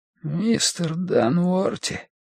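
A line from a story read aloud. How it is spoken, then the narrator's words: Weak wheeze. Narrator (Russian): просипел он слабым голосом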